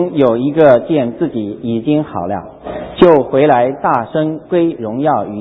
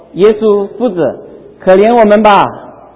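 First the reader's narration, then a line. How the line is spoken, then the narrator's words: Loud. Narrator (Chinese): 高声说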